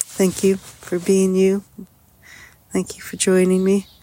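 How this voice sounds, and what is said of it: Voice fading, strained. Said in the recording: “As I lose my voice here.”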